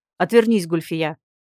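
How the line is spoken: Barking. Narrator (Russian): рявкнул лорд Бранд

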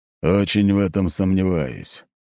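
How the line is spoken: Grumbling. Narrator (Russian): проворчал Ротай

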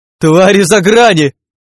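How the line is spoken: Terrified yell. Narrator (Russian): в ужасе заорал гуманоид

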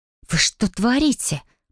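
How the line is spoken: Shocked hiss. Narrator (Russian): потрясенно зашипела я

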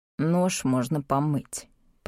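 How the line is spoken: Grumbling. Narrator (Russian): проворчал Орнус

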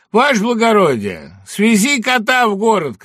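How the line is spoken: Soldier shouting. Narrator (Russian): крикнул один из солдат

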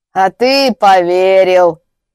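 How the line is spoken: Snorting smirk. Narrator (Russian): хмыкнул человек в плаще

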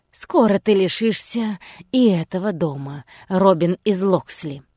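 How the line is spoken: Quiet menacing hiss. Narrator (Russian): тихо прошипел Гай Гисборн

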